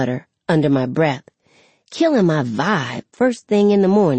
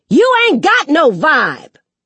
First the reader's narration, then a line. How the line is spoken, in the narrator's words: she hollers from the hall